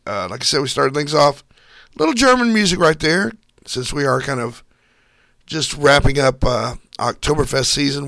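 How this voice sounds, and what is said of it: Voice strained from a cold. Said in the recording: “I've been battling a cold for like 3 weeks ... losing my voice”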